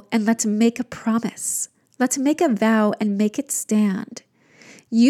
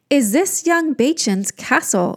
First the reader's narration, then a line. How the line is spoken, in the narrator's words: she cried